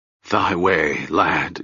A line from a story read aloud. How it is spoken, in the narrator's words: Ged said in a hoarse whisper